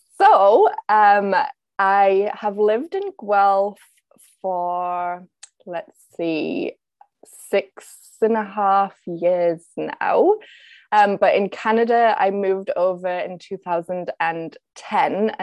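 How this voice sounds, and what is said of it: Northern English Yorkshire accent. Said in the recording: “You have like this beautiful accent ... I'm originally from the northeast of England, North Yorkshire”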